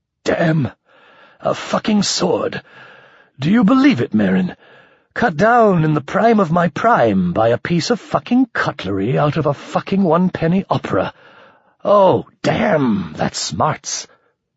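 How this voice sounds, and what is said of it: Taut voice strained with pain. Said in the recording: “His voice was held taut by a cord of pain.”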